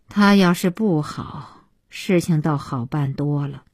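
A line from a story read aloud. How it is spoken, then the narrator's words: Long sigh. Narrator (Chinese): 小西妈长叹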